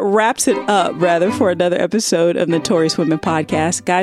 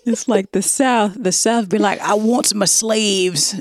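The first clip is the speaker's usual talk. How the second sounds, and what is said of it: Terrible put-on Southern accent. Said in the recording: “I can make up terrible Southern accent. ... That sounds like a racist plantation owner.”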